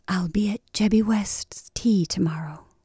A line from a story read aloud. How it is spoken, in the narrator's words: she whispered